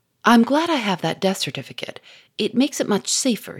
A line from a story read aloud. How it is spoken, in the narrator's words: he said